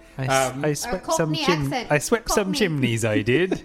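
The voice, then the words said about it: Put-on English Sussex accent. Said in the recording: “She's got like that Sussex accent.”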